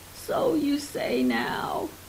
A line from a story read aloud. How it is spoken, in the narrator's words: he laughed